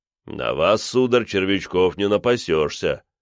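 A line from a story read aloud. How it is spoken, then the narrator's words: Deep voice, guffawing. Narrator (Russian): пробасил впереди маэстро и гоготнул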